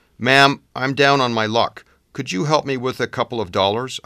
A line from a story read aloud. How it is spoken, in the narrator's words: I blurted out